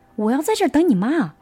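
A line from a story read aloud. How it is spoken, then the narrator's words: Loud. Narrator (Chinese): 大声的说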